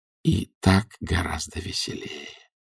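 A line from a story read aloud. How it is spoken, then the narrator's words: Whisper. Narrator (Russian): прошептал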